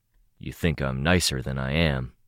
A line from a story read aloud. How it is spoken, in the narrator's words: Moose said, his voice low